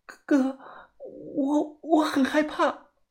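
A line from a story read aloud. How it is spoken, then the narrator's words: Trembling, frightened. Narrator (Chinese): 小白声音发颤呢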